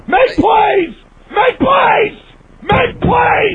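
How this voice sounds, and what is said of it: Screaming, voice cracking. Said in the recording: “you can hear his voice cracking... I can hear him screaming like a lunatic... losing his voice”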